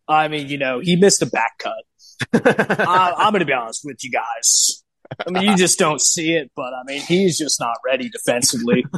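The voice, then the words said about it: Impression of coach Clifford. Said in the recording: “pretty good Clifford impression”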